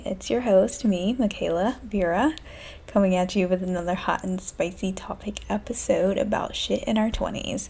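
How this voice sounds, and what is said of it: Low, quiet voice. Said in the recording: “My voice is kind of low because a bitch jinxed herself, and my roommates are not working men... That's why my voice is so low.”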